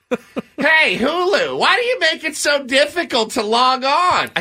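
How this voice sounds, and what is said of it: Older grumpy imitated voice. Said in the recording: “in your Andy Rooney voice ... it needs to be a little older ... I sound like an amalgam of like people I've worked with”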